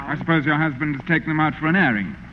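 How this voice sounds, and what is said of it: English accent. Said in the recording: “I love that English accent.”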